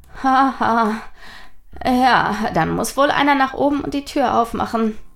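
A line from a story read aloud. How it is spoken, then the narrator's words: Nervous laugh. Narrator (German): lachte Nathaniel nervös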